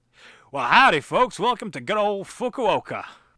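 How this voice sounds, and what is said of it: Put-on Texan yokel accent. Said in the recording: “they speak like a bunch of yokels ... the Texas of Japan”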